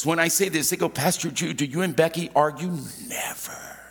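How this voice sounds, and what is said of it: Whispering. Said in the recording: “I don't know why I'm doing the whispering thing today.”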